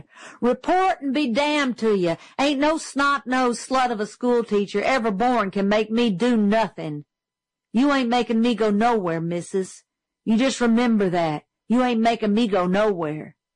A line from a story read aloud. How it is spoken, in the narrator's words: he shouted